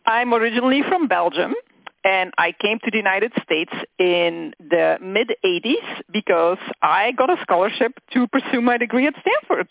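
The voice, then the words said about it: Slight Belgian accent. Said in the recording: “the listeners can detect a little accent”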